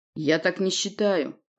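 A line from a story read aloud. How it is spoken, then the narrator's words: Deep bass voice. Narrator (Russian): пробасил Володя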